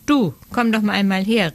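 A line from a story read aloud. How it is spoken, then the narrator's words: Calling out. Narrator (German): rief er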